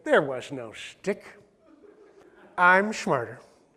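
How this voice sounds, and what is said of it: Imitates another person's voice. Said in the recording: “my best Jim Carrey impersonation”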